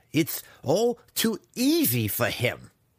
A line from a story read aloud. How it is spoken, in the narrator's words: he snarled